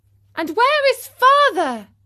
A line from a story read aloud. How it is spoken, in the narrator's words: he cried suddenly